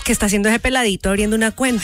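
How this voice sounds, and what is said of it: Put-on Colombian Spanish accent. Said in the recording (Spanish): “Es un acento colombiano.”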